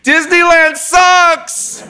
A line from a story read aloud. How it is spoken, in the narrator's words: he shouts